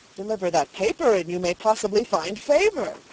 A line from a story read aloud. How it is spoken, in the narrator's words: cried Dunwoody, expecting a discovery of importance to the cause